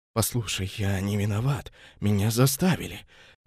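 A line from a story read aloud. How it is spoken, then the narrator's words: Fervent nervous whisper. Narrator (Russian): жарко прошептал мужчина, обливаясь потом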